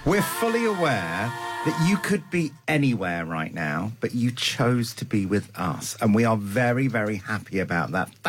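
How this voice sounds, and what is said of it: Posh put-on accent. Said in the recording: “Are you speaking posh”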